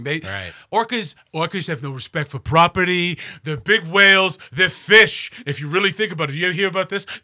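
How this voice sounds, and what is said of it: Bad Donald Trump impression. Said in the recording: “This is a terrible Trump impersonation. ... It used to be better. ... My voice is not healthy.”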